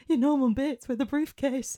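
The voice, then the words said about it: Put-on northern English accent. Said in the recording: “That's my northern accent.”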